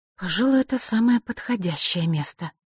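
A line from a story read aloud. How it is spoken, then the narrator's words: Mutter. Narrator (Russian): пробормотала Василиса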